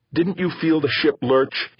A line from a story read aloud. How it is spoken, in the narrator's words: He answered hotly